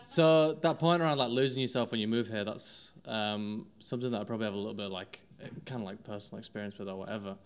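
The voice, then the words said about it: Northern English, West Yorkshire accent. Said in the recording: “obviously I'm not from London, probably tell from the accent, also a fellow northerner ... I'm from a place called Wakefield, West Yorkshire, near Leeds”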